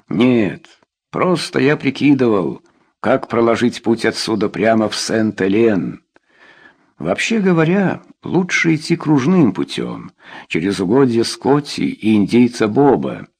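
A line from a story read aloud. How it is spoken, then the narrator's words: Plain. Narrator (Russian): сказал Мэри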